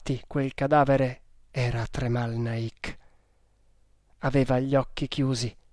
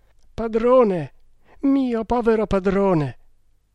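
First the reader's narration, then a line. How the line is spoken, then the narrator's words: Sobbing. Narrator (Italian): singhiozzò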